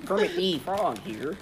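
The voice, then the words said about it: Bad Kermit the Frog impression. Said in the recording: “Oh no, that's not Kermit, that's ... doing a bad impression.”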